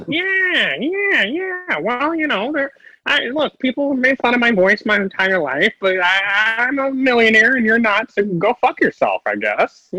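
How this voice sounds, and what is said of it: Imitates another person's voice. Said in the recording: “movie superstar / Mickey Mouse impersonator, Owen Wilson”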